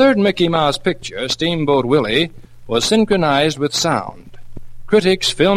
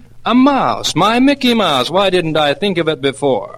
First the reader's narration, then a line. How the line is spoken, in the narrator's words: he excitedly exclaimed